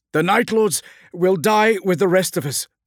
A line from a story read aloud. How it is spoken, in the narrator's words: shouted Caius